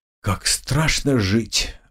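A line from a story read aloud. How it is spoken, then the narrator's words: Sigh. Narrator (Russian): вздохнул Николай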